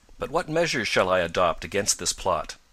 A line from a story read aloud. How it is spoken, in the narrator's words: Tom asked